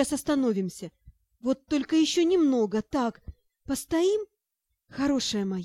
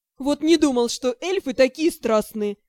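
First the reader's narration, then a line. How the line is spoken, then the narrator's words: Laughing. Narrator (Russian): засмеялся Шао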